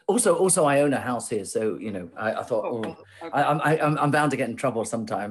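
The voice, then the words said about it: British accent. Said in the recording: “I still feel very British ... I'm still working on the accent, as you can tell”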